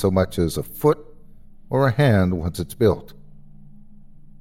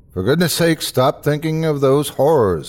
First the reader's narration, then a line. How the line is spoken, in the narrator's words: I called out to him